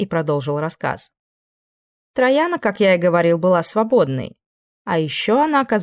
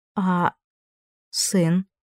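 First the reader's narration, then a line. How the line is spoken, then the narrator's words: Hoarse question. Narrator (Russian): хриплым голосом спросила Кассандра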